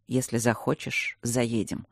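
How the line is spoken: Calm. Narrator (Russian): ответил он спокойно

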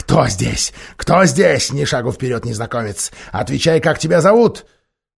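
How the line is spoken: Huge beast growling. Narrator (Russian): огромный зверь прорычал

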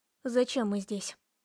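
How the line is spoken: Forced calm, suppressed trembling. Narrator (Russian): Я старалась говорить спокойно, с трудом сдерживая дрожь

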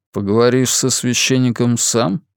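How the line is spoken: Plain. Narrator (Russian): спросил он

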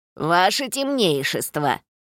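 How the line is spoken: Creaky small voice. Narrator (Russian): проскрипел мелкий

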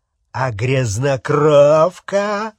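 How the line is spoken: Growling. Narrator (Russian): прорычал Фенрир

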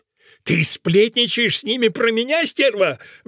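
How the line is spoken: Furious trembling roar. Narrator (Russian): взревел Фуся, так затрясшись от злобы

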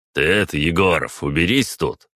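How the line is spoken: Sudden, menacing. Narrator (Russian): спохватившись, грозно произнес Березин

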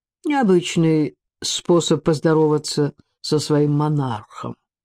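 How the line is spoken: Plain. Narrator (Russian): ответил он

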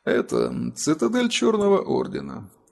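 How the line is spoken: Dry answer. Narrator (Russian): сухо ответил Атор

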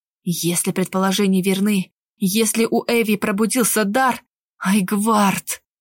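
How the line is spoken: Whisper. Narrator (Russian): прошептал он

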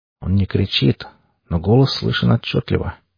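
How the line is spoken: Quiet. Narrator (Russian): тихо произнес механик

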